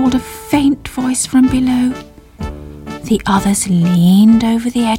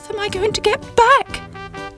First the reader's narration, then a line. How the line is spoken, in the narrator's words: cried Sybil